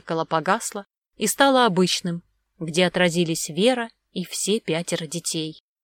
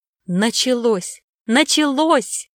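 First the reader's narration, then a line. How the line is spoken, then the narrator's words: Joyful shout. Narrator (Russian): радостно закричал Баян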